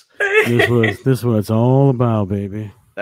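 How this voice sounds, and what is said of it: Sultry late-night phone voice. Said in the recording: “He's doing his This is what it's all about, baby. His nighttime call girl voice.”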